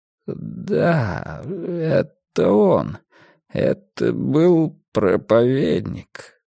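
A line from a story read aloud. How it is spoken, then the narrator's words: Mumbling. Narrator (Russian): промямлил Рокки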